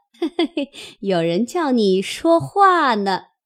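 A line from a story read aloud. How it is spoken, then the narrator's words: Laughing. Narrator (Chinese): 凤姐 向林黛玉笑道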